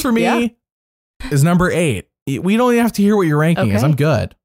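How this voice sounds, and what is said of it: Usual voice. Nothing is said of it.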